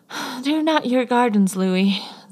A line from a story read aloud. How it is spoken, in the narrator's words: Zane sighed wearily